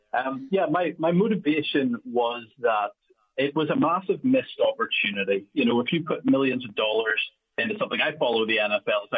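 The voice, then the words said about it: Speaks with a foreign accent. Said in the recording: “hopefully everybody can understand my accent over there”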